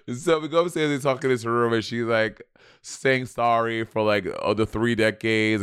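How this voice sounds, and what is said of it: Noticeable accent. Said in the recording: “you so don't think you have an accent ... Why you got an accent?”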